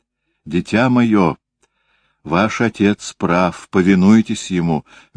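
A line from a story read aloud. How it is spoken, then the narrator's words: Gentle motherly. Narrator (Russian): мягко сказала мать дочери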